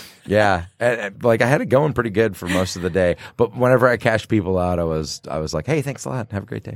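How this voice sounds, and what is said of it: Usual voice. Nothing is said of it.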